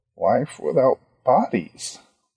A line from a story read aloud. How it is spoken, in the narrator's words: Ronnie muttered